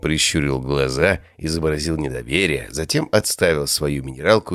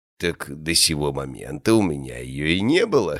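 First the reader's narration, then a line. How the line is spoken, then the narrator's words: Old man's chuckle. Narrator (Russian): хохотнул старик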